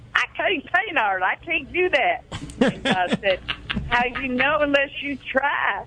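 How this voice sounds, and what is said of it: Southern-accented imitation of another person. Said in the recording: “my Howard Finster impersonation ... God's got a southern accent down in Georgia”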